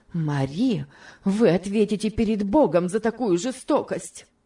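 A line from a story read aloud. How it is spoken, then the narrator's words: Heated exclamation. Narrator (Russian): горячо воскликнула мисс Офелия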